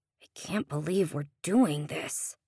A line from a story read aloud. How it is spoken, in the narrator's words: Sean muttered